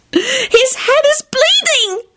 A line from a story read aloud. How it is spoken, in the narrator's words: she shrieked